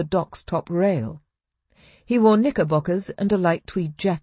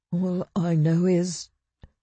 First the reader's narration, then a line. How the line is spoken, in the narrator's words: Fox stammered softly